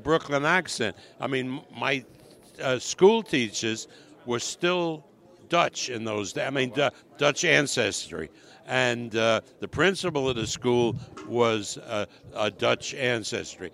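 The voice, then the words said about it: Brooklyn accent. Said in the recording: “you're still a Brooklyn guy, so you still got that accent”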